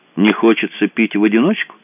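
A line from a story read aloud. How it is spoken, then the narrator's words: Cheerful question. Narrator (Russian): весело поинтересовался Подбери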